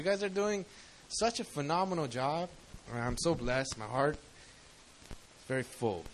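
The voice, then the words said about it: Choked-up, emotional voice. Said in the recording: “I'm gonna cry. ... I got a little choked up”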